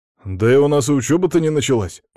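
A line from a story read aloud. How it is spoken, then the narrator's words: Exclaimed. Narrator (Russian): воскликнул Петр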